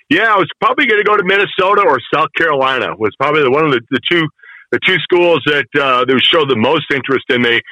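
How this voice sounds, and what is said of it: Chicago accent. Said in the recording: “you hear my Chicago accent. It comes out when I'm talking to you guys. I love it. I love the Chicago accent.”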